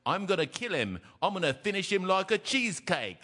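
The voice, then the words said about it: Put-on British accent. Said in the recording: “It was the British accent. ... it was very good.”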